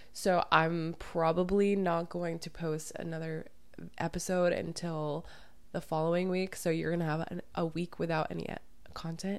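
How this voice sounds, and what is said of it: Hoarse, partly lost voice. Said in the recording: “I am a little bit sick today, so it's kind of like a smooth jazz kind of podcast ... lost my voice a little bit ... it's a little bit hard to even make this video because my voice is really”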